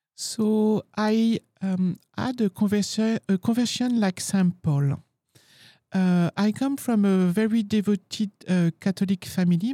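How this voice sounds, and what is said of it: French accent. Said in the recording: “the lovely French accent that you have”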